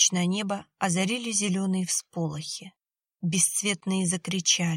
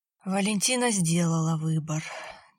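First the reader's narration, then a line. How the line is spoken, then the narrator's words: Heavy sigh. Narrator (Russian): тяжело вздохнул Борис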